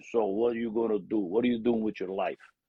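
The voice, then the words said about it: Broken accent. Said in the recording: “with a broken accent.”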